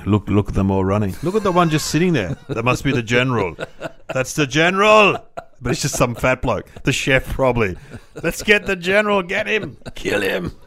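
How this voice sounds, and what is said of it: Generic bad guy accent. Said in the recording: “I don't know why they speak like that. Where are they from? ... Accent that sort of covers all. It's a generic accent. Yeah. Bad guy accent.”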